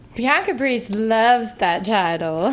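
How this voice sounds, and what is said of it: Put-on Southern accent. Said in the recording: “Her little accent going on. ... Anytime I have a southern accent, you know when I'm fibbing.”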